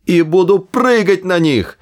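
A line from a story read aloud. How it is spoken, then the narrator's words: Shouting. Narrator (Russian): кричал Артур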